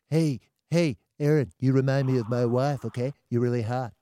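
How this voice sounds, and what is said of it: Imitates another person's voice. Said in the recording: “That is an incredible incredible impersonation.”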